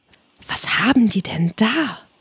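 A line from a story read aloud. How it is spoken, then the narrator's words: Whispered. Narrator (German): flüsterte Alice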